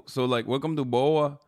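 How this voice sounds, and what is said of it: Attempted Brazilian accent, sounds Cholo. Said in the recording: “Is that your Brazilian?... every time I do the Brazilian accent, it turns into like I'm doing the Cholo accent.”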